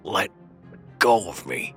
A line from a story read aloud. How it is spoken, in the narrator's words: Andrew sputtered out, trying to tear himself from the man's grip